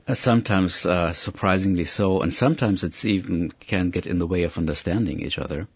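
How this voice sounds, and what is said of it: German accent in English. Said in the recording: “You're obviously from Virginia by your accent... German, actually.”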